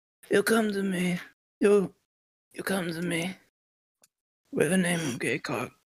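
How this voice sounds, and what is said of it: Godfather impression, Brando voice. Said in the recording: “a Godfather impression ... Like Brando?”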